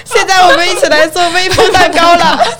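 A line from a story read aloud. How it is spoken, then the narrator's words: Loud. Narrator (Chinese): 我就大声的跟他们说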